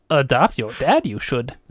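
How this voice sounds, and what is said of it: Yoda impression. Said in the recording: “And now we're sounding like Yoda ... That's my best Yoda impersonation ... You had the like meter and sort of the structure right”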